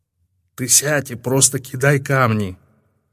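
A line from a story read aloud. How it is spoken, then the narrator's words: Novice whispering. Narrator (Russian): прошептал послушник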